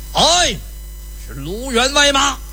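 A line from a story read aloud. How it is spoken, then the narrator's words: Shout from the woods. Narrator (Chinese): 就听树林子里边有人呐喊了一声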